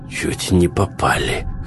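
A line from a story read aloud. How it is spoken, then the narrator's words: Hoarse voice. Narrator (Russian): хриплым голосом зачем-то поведал ему Сток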